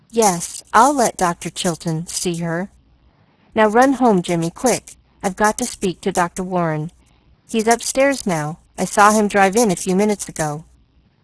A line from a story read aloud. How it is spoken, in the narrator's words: she said brokenly